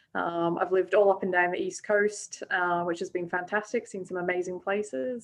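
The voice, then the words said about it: Mixed South African, Scottish, Australian accent. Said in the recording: “hybrid Australian ... where's your accent from? ... So a bit of a mix. I was born in South Africa, but raised in Scotland from a young age, and moved out to Australia”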